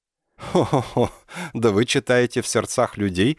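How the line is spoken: Laughing. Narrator (Russian): засмеялся я

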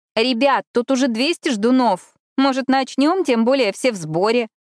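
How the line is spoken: Loud interjection. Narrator (Russian): громко вставила Эшли

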